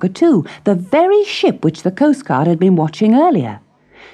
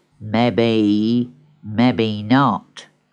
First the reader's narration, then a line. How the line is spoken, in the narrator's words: muttered Longshanks